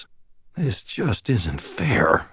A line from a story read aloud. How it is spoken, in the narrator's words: I muttered to myself